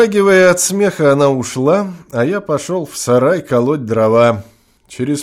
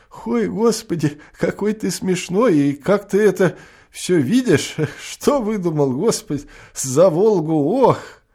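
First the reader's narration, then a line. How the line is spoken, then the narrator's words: Laughing female speech. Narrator (Russian): Засмеялась и сквозь смех сказала мне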